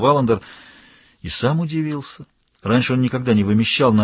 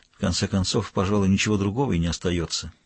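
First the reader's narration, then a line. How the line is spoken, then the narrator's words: Quiet. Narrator (Russian): тихо сказал Валандер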